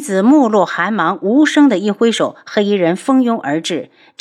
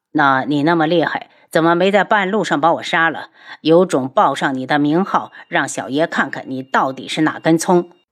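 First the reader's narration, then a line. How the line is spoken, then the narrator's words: Cold, irritated. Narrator (Chinese): 听得无双只想发火，冷声道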